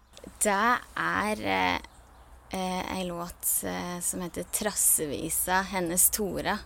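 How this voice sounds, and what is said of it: Norwegian Toten dialect. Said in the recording (Norwegian): “så kjekt med den eh, dialekten din ... Toten-dialekt. Jeg syns det er helt herlig.”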